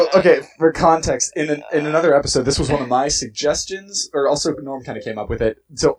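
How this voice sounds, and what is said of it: Usual voice. Nothing is said of it.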